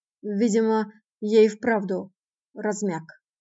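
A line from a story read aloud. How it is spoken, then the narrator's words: Hissed. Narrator (Russian): прошипел он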